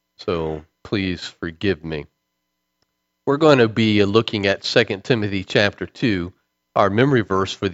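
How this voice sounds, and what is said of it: Sick, dull, flat-toned voice. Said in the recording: “my voice sounds a little off. I've got some kind of cold and other things. Do not feel very well ... I'm going to sound as dull and boring as I sound right now and keep my voice just at this tone”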